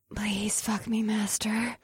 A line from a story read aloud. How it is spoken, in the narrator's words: she whispered into my ear